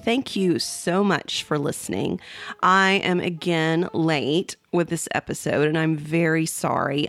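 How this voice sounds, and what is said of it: Congested voice from a cold. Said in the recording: “I'm getting over my third cold this winter. You can probably hear it in my voice”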